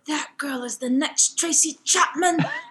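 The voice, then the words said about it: Put-on British accent. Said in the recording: “He's British... I love the accent”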